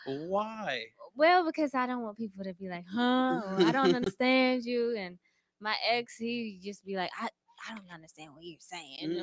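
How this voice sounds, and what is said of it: Southern US accent. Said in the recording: “accent ... a little draw ... A little twang ... the South”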